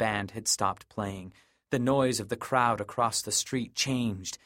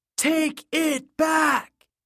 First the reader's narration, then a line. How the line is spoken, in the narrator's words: It was a defiant yell, like a sound shouted into the surf or screamed off a cliff